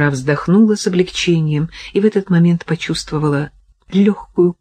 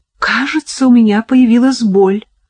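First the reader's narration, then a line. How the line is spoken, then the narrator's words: Exclaimed. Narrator (Russian): воскликнула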